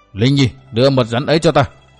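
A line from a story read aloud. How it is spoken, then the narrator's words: Roaring. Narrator (Vietnamese): Đinh Cao gầm lên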